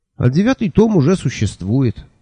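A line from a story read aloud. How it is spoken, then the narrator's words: Snorting. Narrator (Russian): фыркнул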